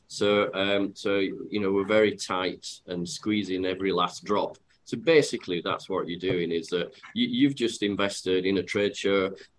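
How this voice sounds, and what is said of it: Yorkshire English accent. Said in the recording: “for those that have got my accent, they'll know that I'm from Yorkshire.”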